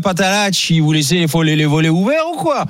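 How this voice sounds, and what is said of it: Drawling, sing-song Niçois accent. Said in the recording (French): “L'accent niçois, si tu traînes un peu plus ... c'est à Nice, tu traînes plus qu'à Marseille. Vraiment où tu chantes”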